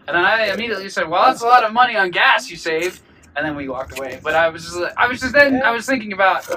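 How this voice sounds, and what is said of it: Usual voice. Nothing is said of it.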